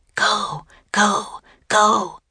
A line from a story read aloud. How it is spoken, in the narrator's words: she whispered